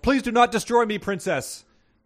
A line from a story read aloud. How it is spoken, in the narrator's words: The blue dragon Voraltrar yelled